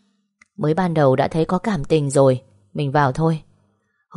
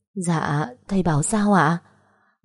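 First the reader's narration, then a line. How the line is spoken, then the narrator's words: Trembling voice near tears. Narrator (Vietnamese): Giọng cô run run sắp khóc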